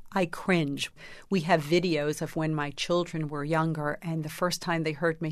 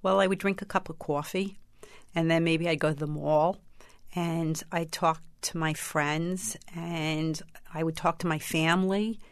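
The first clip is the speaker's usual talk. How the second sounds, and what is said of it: Strong New York accent. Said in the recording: “they're all from New York. More like that. ... Did you have that strong an accent?”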